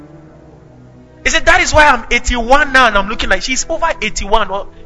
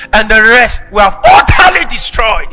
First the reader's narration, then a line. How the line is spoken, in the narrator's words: he shouted